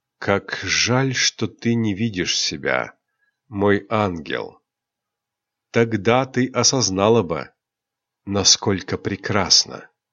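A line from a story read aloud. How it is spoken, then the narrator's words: Whisper. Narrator (Russian): Рионар прошептал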